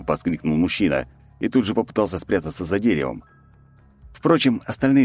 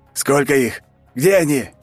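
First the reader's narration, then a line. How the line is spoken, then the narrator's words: Commander shouting. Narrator (Russian): кричал командир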